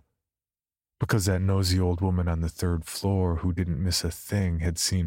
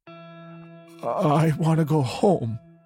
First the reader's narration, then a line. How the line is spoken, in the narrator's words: says in a choked voice, deep and husky sobs following